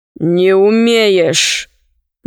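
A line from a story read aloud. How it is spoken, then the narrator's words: Gloomy. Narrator (Russian): мрачно сказал Синдбад-мореход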